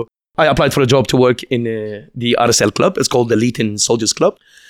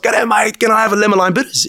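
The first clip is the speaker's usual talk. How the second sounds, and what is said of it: Put-on Australian accent. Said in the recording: “that was a solid accent... pull it off. Yeah, that was good.”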